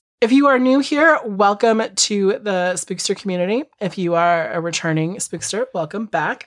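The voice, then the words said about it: Sick-sounding voice. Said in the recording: “this is not how my voice sounds all the time ... she's sick ... I'm just sick”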